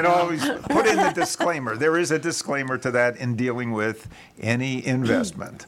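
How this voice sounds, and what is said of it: Usual voice. Nothing is said of it.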